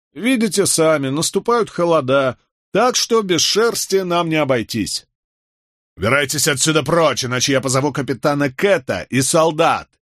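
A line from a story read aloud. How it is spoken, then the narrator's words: Angry bark. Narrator (Russian): рявкнул Майкл Воувелл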